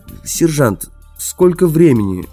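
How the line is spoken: Plain. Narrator (Russian): спросил Мортон

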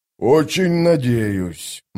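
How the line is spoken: Gloomy grumble. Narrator (Russian): мрачно проворчал сапер

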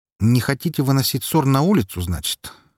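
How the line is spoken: Wry snort. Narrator (Russian): хмыкнул я

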